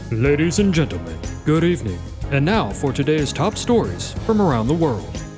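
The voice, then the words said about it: Exaggerated newscaster announcer voice. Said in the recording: “I thought I would practice my big news voice”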